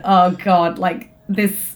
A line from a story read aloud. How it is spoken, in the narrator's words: it made me laugh, and I went